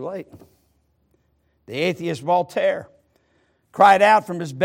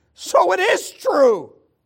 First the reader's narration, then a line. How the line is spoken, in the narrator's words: as he lay dying, the skeptic he cried